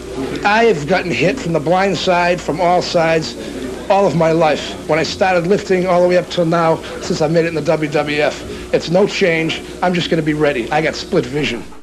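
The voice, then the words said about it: Strong Boston townie accent. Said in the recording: “a guy who sounds like the towniest townie whoever towned in the Boston area ... With that accent”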